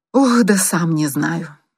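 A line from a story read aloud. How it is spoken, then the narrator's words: Feigned sigh. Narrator (Russian): притворно вздохнул Зарубин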